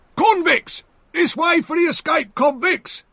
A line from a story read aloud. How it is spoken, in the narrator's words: shouted the other